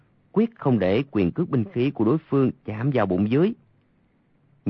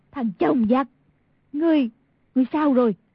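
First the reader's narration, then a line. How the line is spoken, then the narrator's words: Woman crying out. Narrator (Vietnamese): Y thị kêu lên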